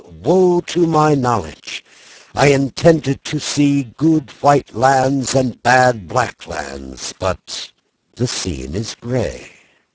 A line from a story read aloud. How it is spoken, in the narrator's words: the prophet, a complacent fat man, he cried